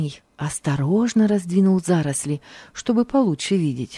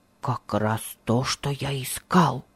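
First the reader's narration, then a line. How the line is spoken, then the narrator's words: Whisper. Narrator (Russian): прошептал он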